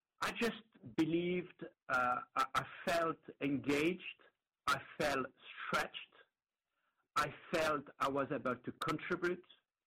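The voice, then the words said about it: Non-American accent. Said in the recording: “as you can guess from the accent, not a US citizen”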